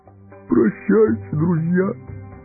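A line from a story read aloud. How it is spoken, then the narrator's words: Sobbing. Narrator (Russian): всхлипнул он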